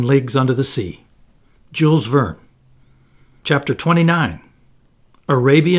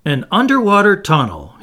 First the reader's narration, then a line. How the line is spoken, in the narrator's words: he exclaimed